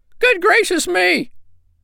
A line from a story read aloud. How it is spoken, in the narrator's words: cried both the little sandpipers